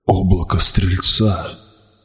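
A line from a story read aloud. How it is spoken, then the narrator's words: Whispered. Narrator (Russian): прошептал я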